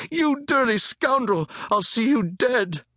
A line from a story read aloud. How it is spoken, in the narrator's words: The injured boy was crying, shrieking